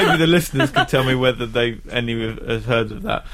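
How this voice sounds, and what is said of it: Usual voice. Nothing is said of it.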